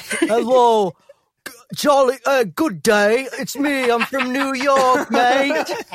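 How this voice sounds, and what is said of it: Put-on accent. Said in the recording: “what was that accent? ... Oh, spot on.”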